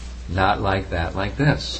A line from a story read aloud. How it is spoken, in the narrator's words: Prabhupada would calmly explain